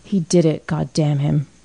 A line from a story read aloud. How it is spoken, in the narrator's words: he whispered huskily